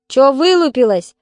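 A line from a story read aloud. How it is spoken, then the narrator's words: Barking again. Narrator (Russian): опять гаркнул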